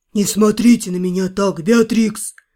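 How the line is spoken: Snort. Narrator (Russian): хмыкнул тот

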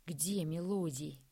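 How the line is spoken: Through gritted teeth. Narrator (Russian): сквозь зубы процедил Андрей

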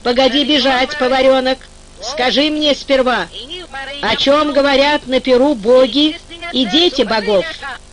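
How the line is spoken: Plain. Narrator (Russian): Эльдир ответил

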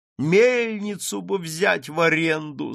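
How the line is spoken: Moaning wife. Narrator (Russian): стонала жена

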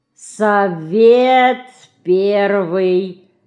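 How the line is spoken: Slow reading aloud. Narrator (Russian): медленно прочел Ленька

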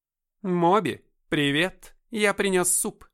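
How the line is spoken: Booming voice. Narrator (Russian): прогудел он

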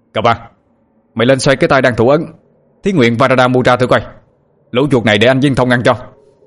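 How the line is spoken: Almost shouting. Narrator (Vietnamese): nối với tôi mà như quát lên

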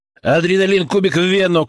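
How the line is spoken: Shout in a strange voice. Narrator (Russian): крикнул, и собственный голос показался мне чужим

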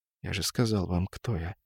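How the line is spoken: Quiet sighing repetition. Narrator (Russian): со вздохом тихо повторил незнакомец

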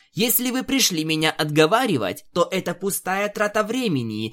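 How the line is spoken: Snapping pony. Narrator (Russian): огрызнулась пони

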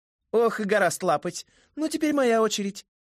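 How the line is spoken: Stifled giggle, mocking voice. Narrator (Russian): сдавленно хихикнул насмешливый голос сказал

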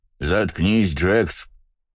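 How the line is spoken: Rough, cutting off. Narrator (Russian): Грубо оборвал его высокий широкоплечий детина

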